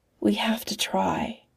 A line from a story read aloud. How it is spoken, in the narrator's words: She whispers